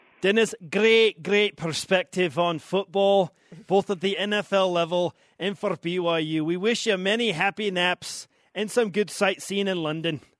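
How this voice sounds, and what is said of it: Put-on Scottish accent. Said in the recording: “The Scottish accent is throwing me off ... That is a pretty good accent.”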